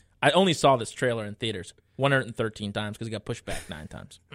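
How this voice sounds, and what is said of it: Usual voice. Nothing is said of it.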